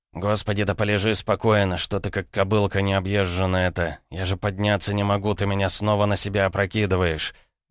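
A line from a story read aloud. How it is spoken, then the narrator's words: Groaning man. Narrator (Russian): простонал мужчина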